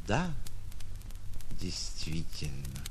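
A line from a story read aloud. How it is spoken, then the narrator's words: Quiet. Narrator (Russian): тихо проговорил Иван Петрович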